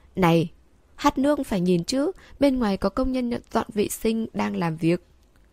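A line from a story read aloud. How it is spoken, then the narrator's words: Loud worker's voice. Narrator (Vietnamese): một công nhân lớn tiếng nói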